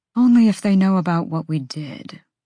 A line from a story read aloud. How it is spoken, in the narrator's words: Therian breathed from the end of their party